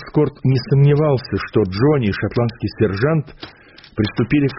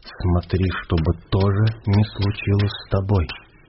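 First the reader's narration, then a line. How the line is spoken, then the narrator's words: Quiet. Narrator (Russian): Это было сказано тихо, один из этих в креслах сказал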